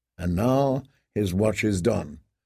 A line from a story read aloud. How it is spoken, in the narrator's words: John murmured softly